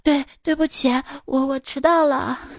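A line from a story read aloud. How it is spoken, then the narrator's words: Breathless stammering apology. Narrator (Chinese): 表现越焦急越好 说话不利索的疲倦程度，气喘吁吁的说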